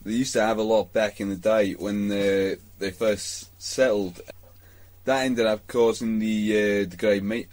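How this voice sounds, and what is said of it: Put-on Australian accent, slipping. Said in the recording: “I cannot hold an Australian accent”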